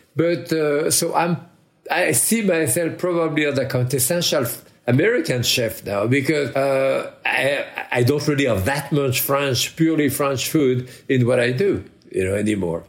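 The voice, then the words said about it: Noticeable foreign accent. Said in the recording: “us Americans are impressed by the accent, of course.”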